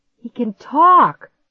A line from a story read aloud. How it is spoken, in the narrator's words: Clark gasped